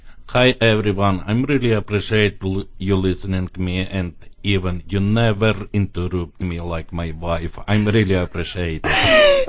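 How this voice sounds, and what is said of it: Speaks with a foreign accent. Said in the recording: “I just love your accent.”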